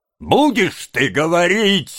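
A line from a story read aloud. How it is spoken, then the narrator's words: Barking, angry. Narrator (Russian): рявкнул еврей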